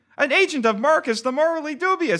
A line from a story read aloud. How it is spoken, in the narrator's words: exclaimed a man